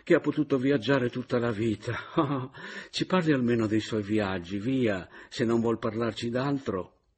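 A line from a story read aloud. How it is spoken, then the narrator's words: Sighing exclamation. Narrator (Italian): esclamò la caporale sospirando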